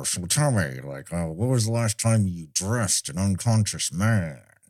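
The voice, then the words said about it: Imitates another person's voice. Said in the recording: “that's good imitation ... he kind of talks a little bit like Edward G. Robinson”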